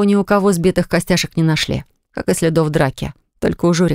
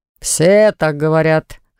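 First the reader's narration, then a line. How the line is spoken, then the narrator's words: Snorting. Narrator (Russian): хмыкнул Уфт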